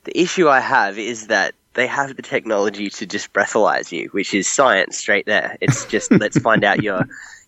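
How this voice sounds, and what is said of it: Australian accent. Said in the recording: “I'm clearly Australian, if you can hear the accent”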